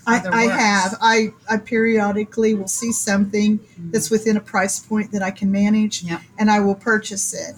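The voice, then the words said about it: Southern American accent. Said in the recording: “my Southern accent ... we love your accent, actually. It's just adorable.”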